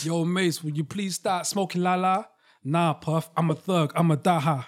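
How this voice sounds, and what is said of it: Imitates another person's accent. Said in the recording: “You can say the normal voice. ... No, I've got to say the accent.”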